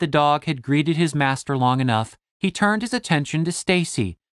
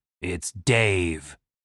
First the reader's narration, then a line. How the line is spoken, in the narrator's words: Dave grumbled